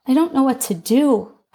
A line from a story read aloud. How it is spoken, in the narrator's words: I admitted